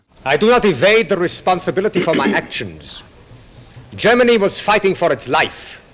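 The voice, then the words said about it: Germanic accent. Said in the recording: “an actor with a Germanic accent”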